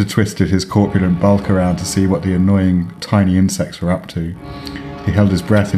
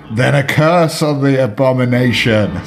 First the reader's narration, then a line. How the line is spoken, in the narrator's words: screamed Eldritch